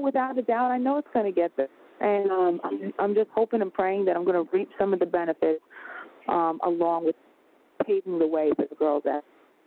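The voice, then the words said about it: Long Island accent. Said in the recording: “I love your Long Island accent.”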